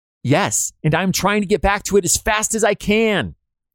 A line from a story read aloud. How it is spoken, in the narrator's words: a quick-witted but terrified soldier hollers back as he continues to run